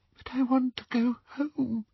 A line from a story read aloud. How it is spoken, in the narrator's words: whispered the girl